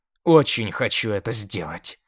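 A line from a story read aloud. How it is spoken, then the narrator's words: Growling. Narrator (Russian): рычала она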